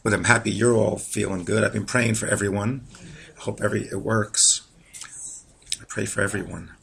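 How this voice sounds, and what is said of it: Voice in poor condition. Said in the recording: “My voice isn't,”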